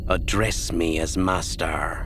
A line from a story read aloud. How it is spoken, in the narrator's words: Ninyim said stiffly